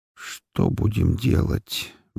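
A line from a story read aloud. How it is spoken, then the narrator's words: Listless mumble. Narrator (Russian): безвольно пробормотал Рутлен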